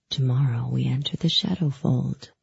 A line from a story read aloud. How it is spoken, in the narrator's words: he whispered, his voice like a caress